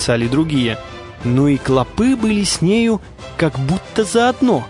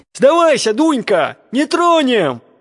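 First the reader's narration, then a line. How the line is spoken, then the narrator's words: Coaxing shouts. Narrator (Russian): кричали осаждающие, думая покорить ее льстивыми словами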